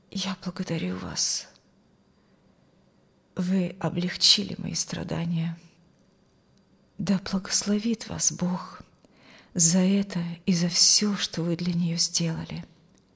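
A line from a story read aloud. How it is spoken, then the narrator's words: Quiet male voice. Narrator (Russian): сказал он тихим голосом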